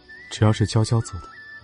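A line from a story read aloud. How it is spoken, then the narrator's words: Soft voice. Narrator (Chinese): 楚天却明白，小姑娘这是又恼上了，然后轻声道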